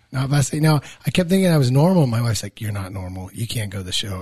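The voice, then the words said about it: Raspy, slightly hoarse voice. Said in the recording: “Can we keep your voice this raspy for the rest of the time?... voice is a little hoarse”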